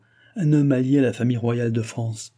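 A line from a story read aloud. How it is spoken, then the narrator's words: Said laughing. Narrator (French): dit madame du Barry en riant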